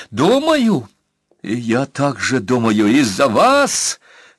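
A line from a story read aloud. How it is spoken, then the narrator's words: Shouting at top of lungs. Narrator (Russian): Во все горло крикнула девка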